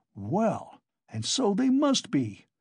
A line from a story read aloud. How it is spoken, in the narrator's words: cried Coke, astonished